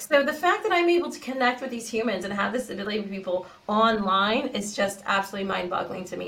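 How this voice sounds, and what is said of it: Californian American accent. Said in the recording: “I'm originally from the US, Cali girl through and through. If you notice the accent, I'm totally Cali girl”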